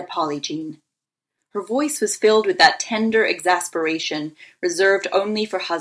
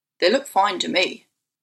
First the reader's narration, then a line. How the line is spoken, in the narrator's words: replied Erwin